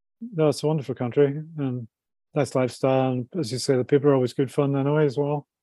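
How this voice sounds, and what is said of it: Northern Irish accent. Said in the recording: “a Northern Ireland accent”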